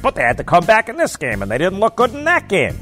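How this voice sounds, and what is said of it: Nerdy put-on voice. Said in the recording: “It's my nerd voice.”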